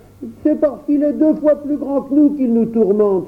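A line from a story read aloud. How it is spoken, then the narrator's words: Exclaimed. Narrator (French): s'écria Louis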